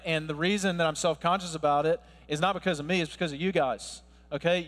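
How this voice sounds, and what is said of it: American Southern accent. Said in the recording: “my accent ... I'm not from around here ... You hear the Southern accent”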